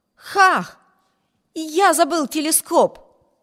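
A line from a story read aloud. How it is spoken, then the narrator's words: Exclaimed. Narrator (Russian): воскликнул Виберт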